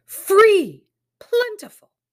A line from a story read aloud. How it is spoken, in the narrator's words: one or the other would shout back